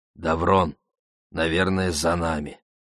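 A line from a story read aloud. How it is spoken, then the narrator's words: Quiet speech. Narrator (Russian): Алик сказал негромко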